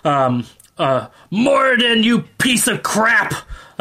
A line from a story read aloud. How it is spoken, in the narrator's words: he spitting, kind of enraging, so angry, turns to you and shouts